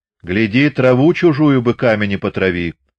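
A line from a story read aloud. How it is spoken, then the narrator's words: Shouted, choking on porridge. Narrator (Russian): вслед ему крикнул отец и поперхнул с кашей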